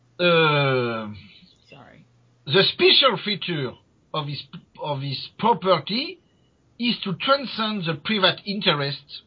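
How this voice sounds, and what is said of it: Strong non-native accent in English. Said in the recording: “My accent okay. Is awful.”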